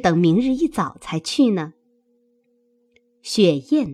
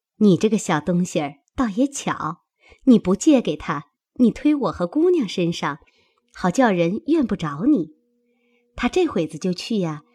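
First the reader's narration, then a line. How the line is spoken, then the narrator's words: Laughing. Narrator (Chinese): 紫娟笑道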